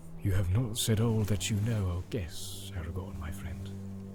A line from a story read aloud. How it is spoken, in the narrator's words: he said quietly